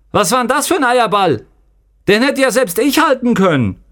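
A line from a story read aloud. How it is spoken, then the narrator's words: Shouting. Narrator (German): rief Raban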